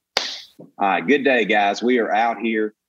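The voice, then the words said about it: Imitates another person's voice. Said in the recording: “do an impression of Matthew McConaughey ... Matthew's like”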